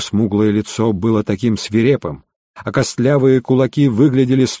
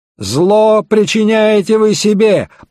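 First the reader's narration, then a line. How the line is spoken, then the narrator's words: Furious shout. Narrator (Russian): побелев от ярости, выкрикнул Стенджерсон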